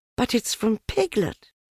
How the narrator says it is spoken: cried Christopher Robin

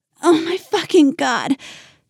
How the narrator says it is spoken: cried

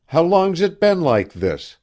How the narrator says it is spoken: Lou demanded sharply

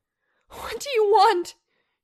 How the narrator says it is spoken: she shouted at the house

